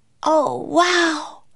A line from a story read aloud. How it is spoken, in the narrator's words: cried Annie